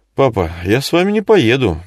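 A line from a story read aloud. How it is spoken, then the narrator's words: Suddenly trembling voice. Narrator (Russian): неожиданно дрогнувшим голосом сказала Вика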